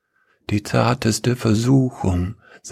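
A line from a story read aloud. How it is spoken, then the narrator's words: Soft singing. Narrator (German): jemand sang leise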